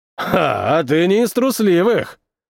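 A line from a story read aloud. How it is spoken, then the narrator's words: Chuckling. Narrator (Russian): хохотнул лысый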